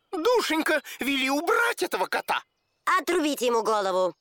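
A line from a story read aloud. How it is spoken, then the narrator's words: Shout. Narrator (Russian): он крикнул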